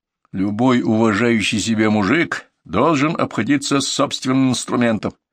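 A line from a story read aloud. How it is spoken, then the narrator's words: Plain. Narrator (Russian): ответил Юрий Павлович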